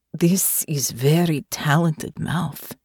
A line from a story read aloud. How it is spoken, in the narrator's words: Natasha said, her voice husky with desire